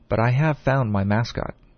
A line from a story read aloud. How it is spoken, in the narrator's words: he replied calmly